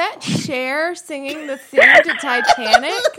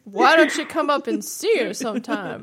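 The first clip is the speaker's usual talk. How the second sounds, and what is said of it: Imitates another person's voice. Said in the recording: “Your Mae West impression”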